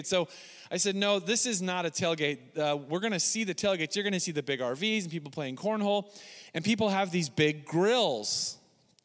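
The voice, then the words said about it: Nasal US Northwest accent. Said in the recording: “my Northwest nasally accent”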